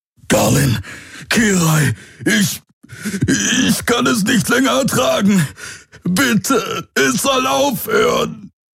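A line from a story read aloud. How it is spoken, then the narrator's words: Roaring. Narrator (German): brüllte er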